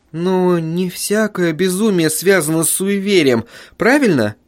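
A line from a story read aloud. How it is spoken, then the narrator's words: Timid question. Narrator (Russian): робко спросила жена писателя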